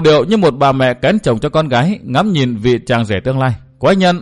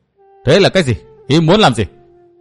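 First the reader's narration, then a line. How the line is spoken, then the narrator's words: Irritated snapping. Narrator (Vietnamese): Chu Sương bực mình gắt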